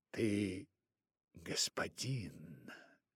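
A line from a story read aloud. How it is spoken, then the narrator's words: Quiet voice. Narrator (Russian): тихим голосом сказала ему Багира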